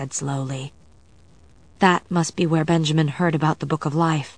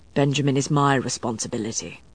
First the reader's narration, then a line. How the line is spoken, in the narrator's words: Matthew said grimly